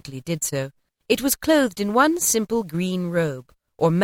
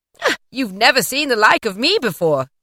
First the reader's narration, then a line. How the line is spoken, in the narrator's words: exclaimed the spirit